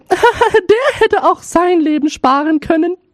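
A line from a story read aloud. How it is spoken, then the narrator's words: Laughing, eldest daughter speaks. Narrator (German): lachten, und die Älteste sprach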